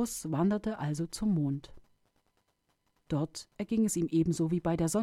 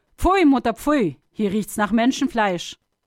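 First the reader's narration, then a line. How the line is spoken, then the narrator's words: Calling out. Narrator (German): Die Sonne rief sogleich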